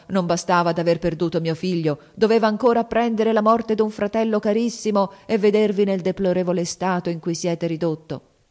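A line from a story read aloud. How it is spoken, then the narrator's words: Exclamation. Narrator (Italian): esclamò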